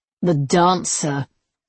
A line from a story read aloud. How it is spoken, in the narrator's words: he sneered